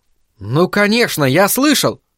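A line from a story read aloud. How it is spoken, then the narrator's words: Exclamation. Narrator (Russian): воскликнул Айзек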